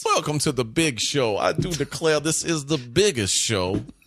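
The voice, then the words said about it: Put-on southern gentleman accent. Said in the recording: “your southern accent, your southern gentleman accent ... Have ... do a southern gentleman accent”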